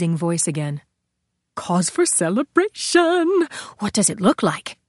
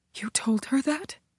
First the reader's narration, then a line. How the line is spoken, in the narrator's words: Gabriella whispered